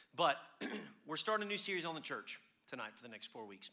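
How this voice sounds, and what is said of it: Strained, failing voice. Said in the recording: “my voice, I'm losing my voice because of pollen”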